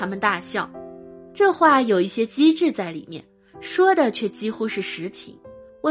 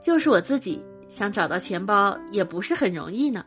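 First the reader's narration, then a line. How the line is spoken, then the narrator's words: Smiling. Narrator (Chinese): 笑着说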